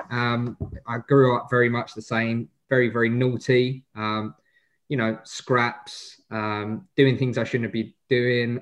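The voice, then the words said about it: Essex English accent. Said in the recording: “I guess from my accent, you can hear that I'm an Essex boy.”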